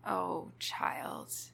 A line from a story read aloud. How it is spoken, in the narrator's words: she murmurs